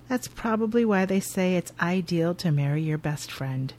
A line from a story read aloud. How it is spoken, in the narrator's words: He nods a little sadly and says